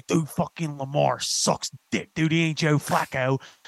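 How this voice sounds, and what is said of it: Put-on Northeast Philly accent. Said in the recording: “Northeast Philly accent ... the O's is the thing”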